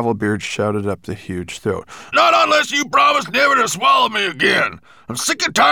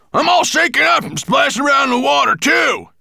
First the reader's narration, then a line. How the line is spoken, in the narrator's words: he shouted up